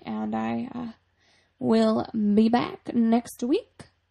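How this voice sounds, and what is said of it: Speaks in a weird accent. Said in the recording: “that was a weird, that's a weird accent.”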